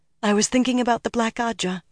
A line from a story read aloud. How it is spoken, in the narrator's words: said weakly